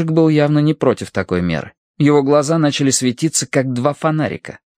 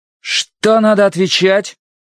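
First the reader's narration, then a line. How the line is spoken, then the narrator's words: Very stern question. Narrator (Russian): Ужасно суровым тоном спросил Словка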